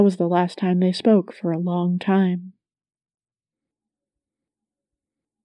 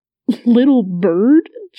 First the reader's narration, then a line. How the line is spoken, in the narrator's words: Jason sputtered